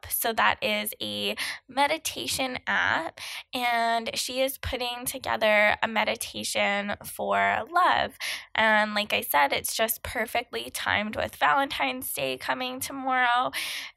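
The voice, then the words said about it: Froggy, hoarse voice. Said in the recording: “I'm sorry for my outrageous sounding froggy voice right now.”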